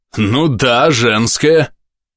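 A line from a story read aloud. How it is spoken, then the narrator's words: Big man barking. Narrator (Russian): рявкнул этот детина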